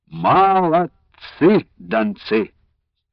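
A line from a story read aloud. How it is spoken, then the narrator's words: Sing-song. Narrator (Russian): сказал он нараспев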